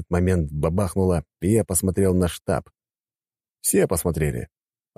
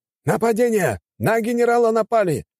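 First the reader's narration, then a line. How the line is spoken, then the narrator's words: Exclaiming. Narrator (Russian): воскликнул один из них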